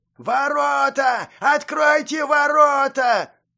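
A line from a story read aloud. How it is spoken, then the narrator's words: Panicked yelling. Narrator (Russian): Панически орал кто-то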